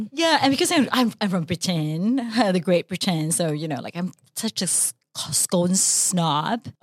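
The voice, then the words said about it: Deliberately bad put-on British accent. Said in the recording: “I know I do very bad accents. ... It's so bad, leh. I don't even know who you are now.”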